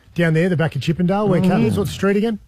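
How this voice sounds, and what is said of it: Australian accent. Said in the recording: “your Australian accent”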